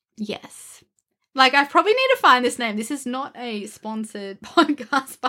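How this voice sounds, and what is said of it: Australian accent. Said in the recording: “our Australian accent”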